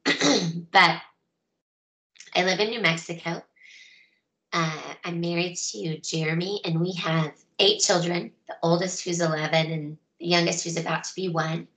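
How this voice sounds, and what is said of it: Weak, fading voice. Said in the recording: “Sorry for my voice. It's kind of fading due to a cold.”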